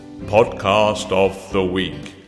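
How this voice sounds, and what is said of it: Deep announcer-style voice. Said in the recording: “Can I do it in a deep enough voice?”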